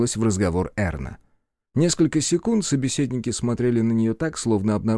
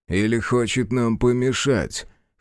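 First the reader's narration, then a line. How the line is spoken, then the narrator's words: Gloomy deep bass. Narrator (Russian): хмуро пробасил Арчер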